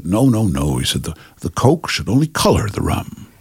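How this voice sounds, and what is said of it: Impression of a film director. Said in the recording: “It's a great impression.”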